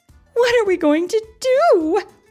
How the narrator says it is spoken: cried Mrs

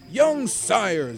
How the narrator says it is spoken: Zazu yelled angrily

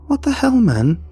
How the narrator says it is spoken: Oliver panted

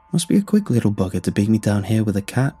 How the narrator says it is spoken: said

